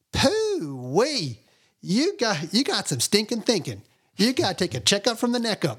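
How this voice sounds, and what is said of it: Southern American accent impression. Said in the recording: “He's got a very Southern American accent. He talked like this”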